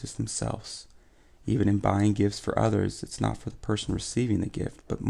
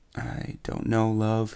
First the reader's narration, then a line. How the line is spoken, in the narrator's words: he sighs